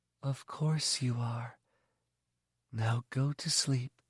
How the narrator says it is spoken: Sallow said in her husky, soft voice

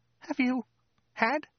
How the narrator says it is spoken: said in a hesitant, strangled squeak

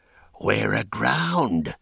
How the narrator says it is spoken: one of the prisoners whispered, but the silence closed in on his voice

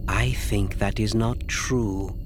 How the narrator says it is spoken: Asi said softly

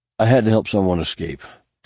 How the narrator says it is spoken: Tahiri managed breathlessly, surprised just how quickly the feeling of invincibility gave way to exhaustion

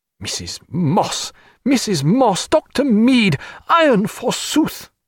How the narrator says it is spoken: cried Stephen

